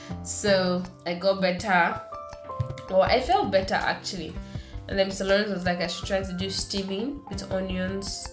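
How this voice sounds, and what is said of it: Congested, blocked-nose voice. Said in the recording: “My nose was pretty much blocked still... my voice was just like, I have cold, like as it is now. Like, this is not how I sound generally”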